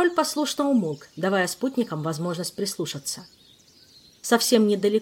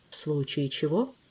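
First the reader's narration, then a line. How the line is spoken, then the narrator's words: Whispered. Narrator (Russian): прошептал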